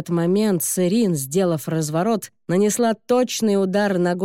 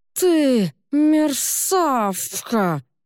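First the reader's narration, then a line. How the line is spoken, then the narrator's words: Lisping, missing front teeth. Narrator (Russian): Прошепелявил Дюров, потому что у него были выбиты два передних зуба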